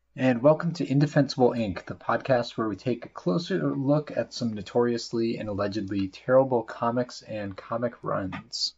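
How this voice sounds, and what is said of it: Congested, slightly rough voice. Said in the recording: “my voice sounds a little gross tonight, I'm getting over a cold”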